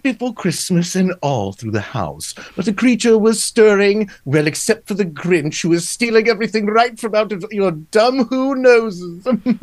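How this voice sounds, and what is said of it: Menacing, slightly British narrator voice. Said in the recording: “my narrator voice ... It's slightly British, but not quite ... More menacing and with a touch of undertone of somebody's up to something”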